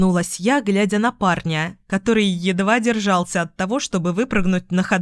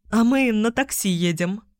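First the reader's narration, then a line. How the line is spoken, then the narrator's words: Nervous chuckle. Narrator (Russian): хохотнула я нервно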